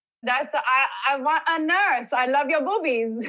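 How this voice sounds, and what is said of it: Toddler voice with Italian accent. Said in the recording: “I do my 2-year-old... She has an Italian accent. It's very weird.”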